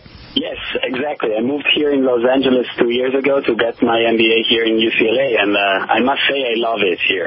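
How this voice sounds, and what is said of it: Northern Italian accent in English. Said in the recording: “as you can hear from the accent, I'm from Italy ... my accent is still affecting my communication ... a northern Italian accent or a southern Italian accent? ... it's from Milan, actually, from the north”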